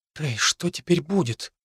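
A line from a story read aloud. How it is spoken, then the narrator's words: Whisper. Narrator (Russian): прошептала Хлоя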